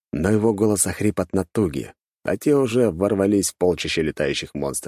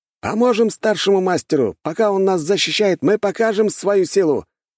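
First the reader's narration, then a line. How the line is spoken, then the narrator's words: Student's shout. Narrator (Russian): выкрикнул один из учеников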